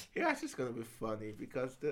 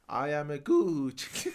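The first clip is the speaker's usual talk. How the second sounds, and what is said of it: Put-on Italian accent. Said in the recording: “the Italian accent ... I could have done that accent right now”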